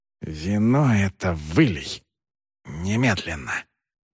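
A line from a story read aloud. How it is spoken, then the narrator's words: Whispered angrily. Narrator (Russian): приор ... прошептал со злостью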